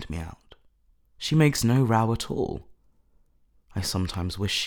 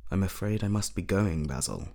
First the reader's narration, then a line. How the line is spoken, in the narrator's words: he murmured